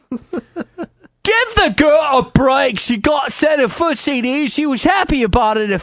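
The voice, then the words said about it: Put-on accent imitating a forum poster. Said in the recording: “I got to do a Paulie B accent, so bear with me.”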